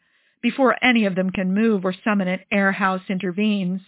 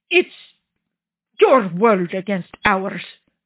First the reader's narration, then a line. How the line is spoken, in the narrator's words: Gianvittorio grunts from the floor